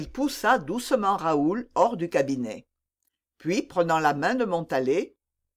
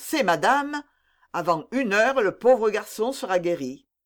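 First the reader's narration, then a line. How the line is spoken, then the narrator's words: Exclaiming. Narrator (French): s'écria d'Artagnan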